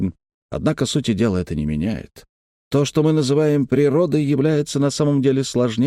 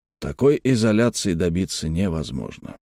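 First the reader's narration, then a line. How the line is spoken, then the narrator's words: Calm. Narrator (Russian): спокойно продолжал Малькольм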